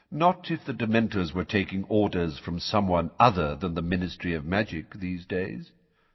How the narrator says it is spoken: said Dumbledore calmly

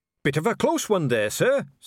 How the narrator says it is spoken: said a voice cheerfully

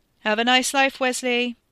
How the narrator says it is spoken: Ricky yelled over the racket

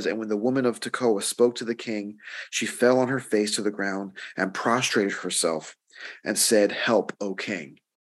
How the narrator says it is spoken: said

